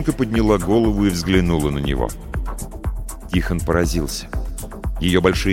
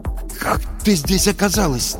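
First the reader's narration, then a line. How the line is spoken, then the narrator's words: Forced out, strained. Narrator (Russian): наконец выдавил он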